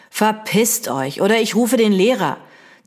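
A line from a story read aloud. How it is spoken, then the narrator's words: Menacing hiss. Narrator (German): zische ich so bedrohlich wie möglich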